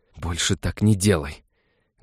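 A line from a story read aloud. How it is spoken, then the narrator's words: Loud angry hiss through teeth. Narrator (Russian): Свитари может настолько громко и злобно шипеть сквозь зубы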